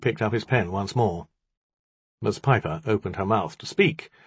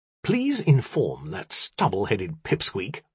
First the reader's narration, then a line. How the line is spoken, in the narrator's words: I snapped